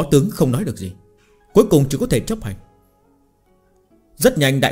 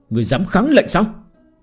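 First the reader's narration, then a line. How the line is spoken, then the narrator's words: Angry. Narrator (Vietnamese): Trương Hồ tức giận nói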